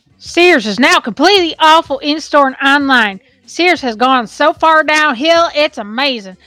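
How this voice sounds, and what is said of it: Angry redneck character voice. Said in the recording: “I'll do my angry redneck voice.”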